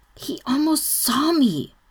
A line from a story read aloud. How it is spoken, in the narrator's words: Brendan hisses, and okay, he's maybe freaking out a little